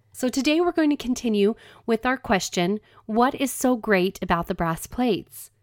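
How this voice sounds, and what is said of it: Deep, congested allergy voice. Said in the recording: “I kind of have a deep voice today because of those spring allergies that are lingering around”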